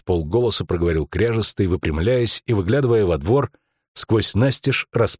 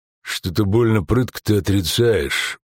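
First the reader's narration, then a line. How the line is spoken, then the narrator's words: Grumbling, tall thin man. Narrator (Russian): буркнул третий, высокий и худой, как жердь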